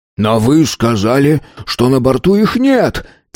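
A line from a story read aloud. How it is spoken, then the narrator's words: Impatient exclamation. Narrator (Russian): Теряя терпение, воскликнул Тиренс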